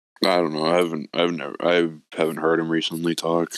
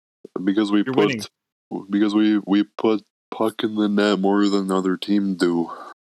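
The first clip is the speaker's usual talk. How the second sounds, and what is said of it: Imitates another person's voice. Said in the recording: “Was that your best Leon impression?”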